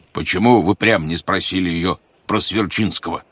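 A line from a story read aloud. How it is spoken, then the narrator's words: Angry question. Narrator (Russian): сердито спросил подполковник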